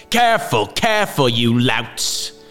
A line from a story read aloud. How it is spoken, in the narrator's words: snapped Herr Gessler